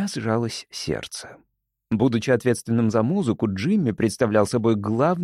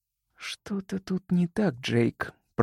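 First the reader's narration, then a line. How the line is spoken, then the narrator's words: Slow, barely audible. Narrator (Russian): проговорила она медленно и еле слышно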